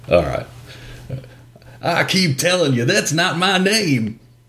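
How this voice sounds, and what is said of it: Put-on hillbilly or trucker accent. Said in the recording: “shitty, a terrible. What do you call it? Hillbilly accent or trucker accent? ... That was pretty good.”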